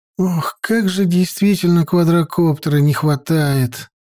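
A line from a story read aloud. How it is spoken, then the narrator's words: Sighing. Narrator (Russian): вздохнула Лариса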